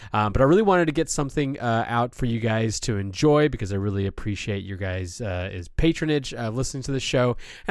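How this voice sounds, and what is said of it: Strained, partly lost voice. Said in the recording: “I completely lost my voice. It's still not even fully back ... I can already tell this is going to be a little bit of a struggle.”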